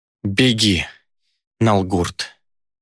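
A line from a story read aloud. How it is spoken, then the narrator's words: Hoarse rasp. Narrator (Russian): прохрипела она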